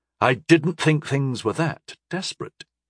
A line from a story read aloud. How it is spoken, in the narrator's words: I replied quietly